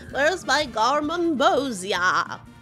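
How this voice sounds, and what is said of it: Imitates a Twin Peaks character. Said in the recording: “my Twin Peaks impression ... It's good.”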